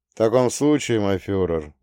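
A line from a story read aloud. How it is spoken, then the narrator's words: Gloomy. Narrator (Russian): мрачно произнес Гейдрих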